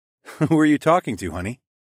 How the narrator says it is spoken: giggled back

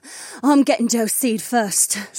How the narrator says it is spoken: Sienna panted

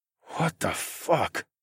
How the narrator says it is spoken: I said in a quiet tone

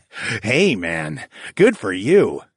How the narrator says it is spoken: Sam laughed

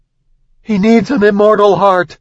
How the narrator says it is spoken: she shouted to Madoc

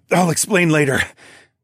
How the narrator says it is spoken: I panted

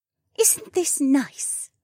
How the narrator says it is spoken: she cooed

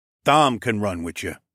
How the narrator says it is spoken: Mael said

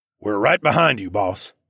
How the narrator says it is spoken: Mel said in his gruff voice

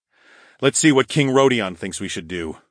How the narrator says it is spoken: I grumbled

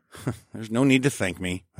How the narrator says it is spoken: I chuckled

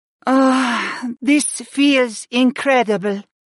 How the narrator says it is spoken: Freya sighed

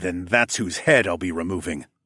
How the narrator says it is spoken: I snarled

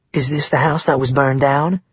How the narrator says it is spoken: Maggie asked

